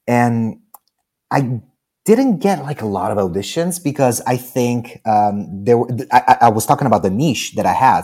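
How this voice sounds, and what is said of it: Slight Italian accent in English. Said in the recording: “I'm an Italian American, mostly Italian, that can speak American, English American, and has this little accent.”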